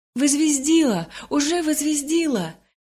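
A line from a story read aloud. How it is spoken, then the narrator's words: Shout. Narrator (Russian): Кто-то крикнул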